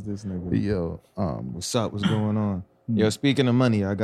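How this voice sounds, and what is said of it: Usual voice. Nothing is said of it.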